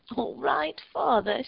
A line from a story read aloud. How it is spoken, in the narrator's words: she cried